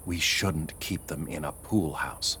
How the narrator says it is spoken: Carrie whispering

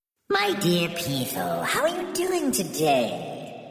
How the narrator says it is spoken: she cooed to the snake

